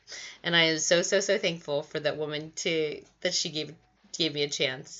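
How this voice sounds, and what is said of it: Teary, emotional voice. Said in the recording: “I'm a little teary. ... let me dry my tears.”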